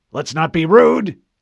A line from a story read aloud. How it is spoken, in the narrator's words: Admiral Whitcomb barked